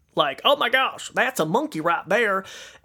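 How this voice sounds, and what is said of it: Exaggerated country accent. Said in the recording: “I don't know why I just did this crazy country accent”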